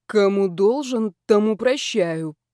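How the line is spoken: Muffled grumble. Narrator (Russian): проворчал мерзавец из-под подушки

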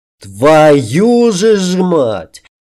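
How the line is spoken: Roaring king. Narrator (Russian): взревел король

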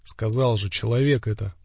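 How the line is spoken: Gruff grumble. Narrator (Russian): буркнул ворон

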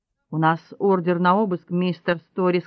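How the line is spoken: Plain. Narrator (Russian): сказал Босх

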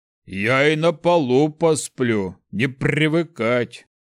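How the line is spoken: Grumbling without insistence. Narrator (Russian): Пробурчал, но в его голосе не было настойчивости

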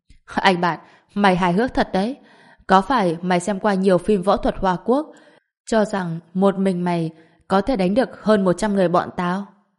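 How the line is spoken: Laughing loudly. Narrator (Vietnamese): hắn lại cười lớn hơn, nói

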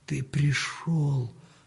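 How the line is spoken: Whisper. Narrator (Russian): прошептал Данила

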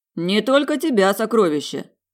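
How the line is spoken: Smirking grunt. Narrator (Russian): хмыкнул Мор

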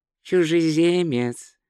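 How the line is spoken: Even voice. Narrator (Russian): ровным голосом сказал Ринсвинд

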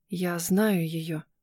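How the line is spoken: Whisper. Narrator (Russian): прошептала

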